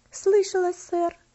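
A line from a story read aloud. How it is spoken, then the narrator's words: Quiet trembling girl. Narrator (Russian): ответила девочка тихим, дрожащим голосом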